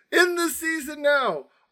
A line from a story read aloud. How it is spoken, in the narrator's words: screaming